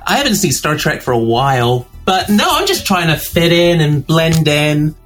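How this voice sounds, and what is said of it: British accent. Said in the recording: “explain your accent to the people ... I'm originally from the UK. ... I'm in the process of uploading an American accent, but it's taking a little bit longer.”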